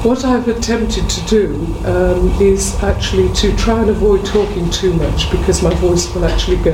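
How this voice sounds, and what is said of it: Hoarse, croaky voice. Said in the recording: “I've enjoyed a state of laryngitis and sore throat ... my bullfrog impression is now subsiding slightly”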